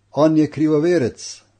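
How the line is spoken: Zealots shouting. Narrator (Slovenian): so vpili rimski gorečniki

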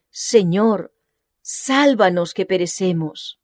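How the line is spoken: Exclaiming. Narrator (Spanish): exclamar

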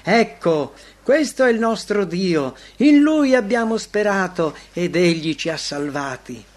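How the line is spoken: Joyful chorus exclaiming. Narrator (Italian): voci dei santi che esclamano con gioia

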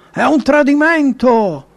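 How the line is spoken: Indignant shout. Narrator (Italian): Atalia, indignata, gridò

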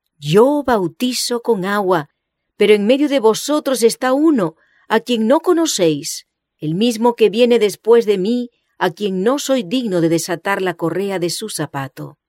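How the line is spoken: Exclaiming. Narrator (Spanish): exclamó

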